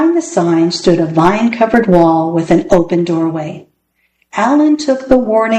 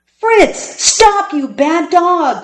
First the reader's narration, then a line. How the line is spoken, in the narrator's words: cried Alan